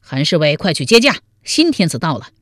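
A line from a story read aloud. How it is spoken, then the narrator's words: Loud shout. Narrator (Chinese): 王彦生高声喊道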